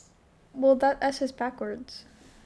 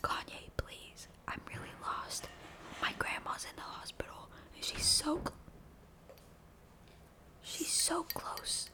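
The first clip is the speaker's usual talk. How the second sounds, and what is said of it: ASMR-style whisper. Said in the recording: “silence for my ASMR ... we can whisper.”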